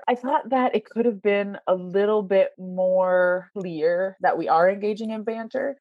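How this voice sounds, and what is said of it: Canadian accent. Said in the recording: “my Canadian accent whenever I'm speaking”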